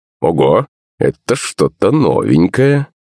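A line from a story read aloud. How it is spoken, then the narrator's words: Gasp and ringing laugh. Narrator (Russian): Маман ахнула и звонко засмеялась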